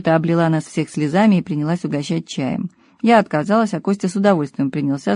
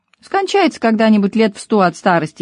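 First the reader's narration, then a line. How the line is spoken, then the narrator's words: Giggling. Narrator (Russian): хихикнул Костя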